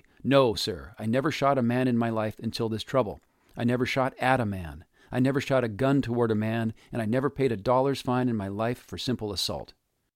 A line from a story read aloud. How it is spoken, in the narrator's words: Considine replied angrily